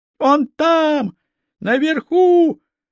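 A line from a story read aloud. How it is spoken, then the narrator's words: Woman shouting upward. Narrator (Russian): Одна женщина задрала голову и закричала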